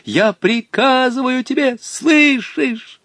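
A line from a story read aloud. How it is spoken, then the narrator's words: Pleading. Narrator (Russian): молил между тем Волька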